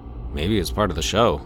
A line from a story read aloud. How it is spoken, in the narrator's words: Zach mumbled